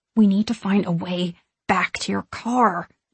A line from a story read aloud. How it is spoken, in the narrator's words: I say under my breath